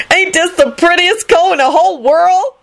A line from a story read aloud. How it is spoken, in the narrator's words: she shouted excitedly